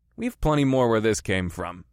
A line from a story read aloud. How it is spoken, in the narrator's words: I snorted